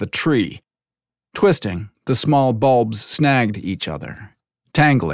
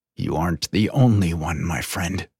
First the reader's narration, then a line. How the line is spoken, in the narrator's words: Zorin muttered